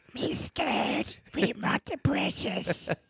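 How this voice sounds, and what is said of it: Gollum-like creature voice. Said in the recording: “Gollum ... sound like Gollum ... That's actually pretty good.”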